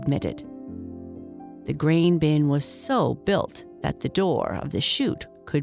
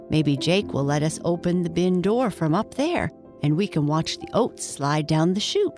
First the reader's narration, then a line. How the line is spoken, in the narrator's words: said Archie